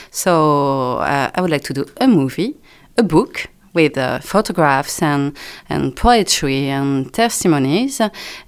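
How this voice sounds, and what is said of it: French accent in English. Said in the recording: “French accent.”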